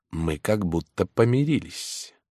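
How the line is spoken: Whisper in ear. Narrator (Russian): он шепнул ей на ухо

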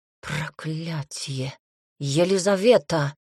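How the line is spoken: Hiss. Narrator (Russian): прошипел он

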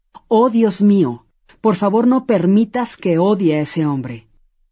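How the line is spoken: Aloud, hateful, resentful. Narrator (Spanish): sintió cómo el odio y rencor se apoderaban de su ser y dijo en voz alta

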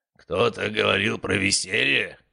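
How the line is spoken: Roaring. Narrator (Russian): проревел он

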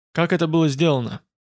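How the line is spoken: Hoarse, exhausted voice. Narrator (Russian): Он ответил хриплым, измученным голосом

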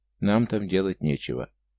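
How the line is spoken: Calm statement. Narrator (Russian): горец спокойно заявил

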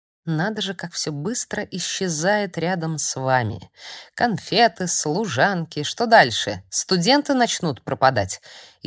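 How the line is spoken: Mocking inquiry. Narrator (Russian): Издевательским тоном поинтересовался Эшфорд

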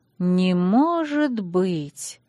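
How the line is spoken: Doubtful drawl. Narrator (Russian): протянула я с сомнением

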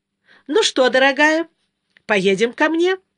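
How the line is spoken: Cheerful question. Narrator (Russian): спросила она Катю весело

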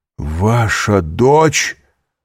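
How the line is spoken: Horrified astonished exclamation. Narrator (Russian): С ужасом и изумлением воскликнул Довриньи

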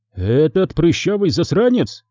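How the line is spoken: Astonished exclamation. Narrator (Russian): изумленно воскликнул Мараска, не веря своим ушам

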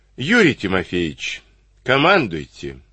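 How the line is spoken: Tired colonel's permission. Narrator (Russian): устало разрешил полковник

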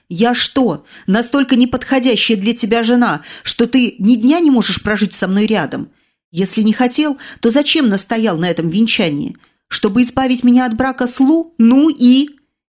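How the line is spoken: Exasperated exclamation. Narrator (Russian): И, видя, что он по-прежнему не догоняет, воскликнула

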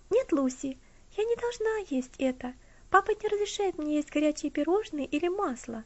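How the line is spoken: Carefree interruption. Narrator (Russian): прервала ее Элси тем же беззаботным тоном, которым говорила до этого

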